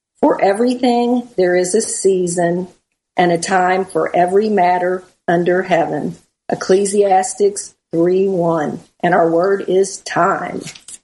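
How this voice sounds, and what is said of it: Southern US accent. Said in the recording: “you're from the South ... That Southern accent gets me every time”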